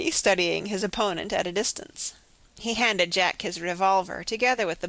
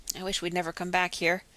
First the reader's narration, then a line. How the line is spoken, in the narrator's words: Jack muttered